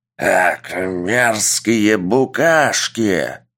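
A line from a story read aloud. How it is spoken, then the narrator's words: Monster's roar. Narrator (Russian): прорычало чудище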